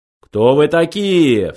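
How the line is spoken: Menacing question. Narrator (Russian): грозно спросил Ланквилл

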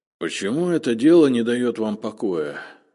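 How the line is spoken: Grumbling. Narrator (Russian): проворчал Зотов

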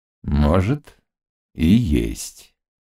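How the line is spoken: Slow. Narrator (Russian): медленно сказал атаман

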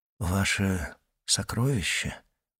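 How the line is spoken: Whispered. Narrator (Russian): прошептал Дантес

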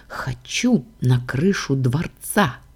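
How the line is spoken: Close, tender whisper. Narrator (Russian): шепнула истинная, прижимаясь к моей груди

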